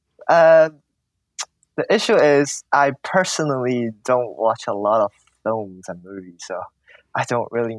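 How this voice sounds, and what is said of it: Cantonese-accented Hong Kong English. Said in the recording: “It's more like the Cantonese accent, and then you put it into when you're speaking English ... you're pitching your voice differently as well ... That is our accent”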